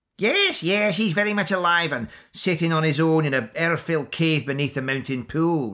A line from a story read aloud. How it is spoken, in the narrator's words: replied the Kyuntiach in her pinched and cracked voice